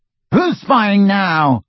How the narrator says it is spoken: He shouted

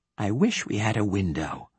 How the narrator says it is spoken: whispered Leigh Hunt

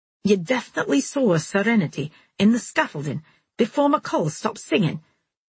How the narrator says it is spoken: Harrison asked again, in a queer, urgent voice

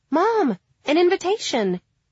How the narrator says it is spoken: exclaimed the girl

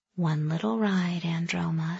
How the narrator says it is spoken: she whispered, a smile tugging at the corners of her lips

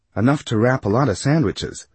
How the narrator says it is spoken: suggested brightly

